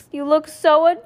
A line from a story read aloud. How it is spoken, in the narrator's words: she exclaimed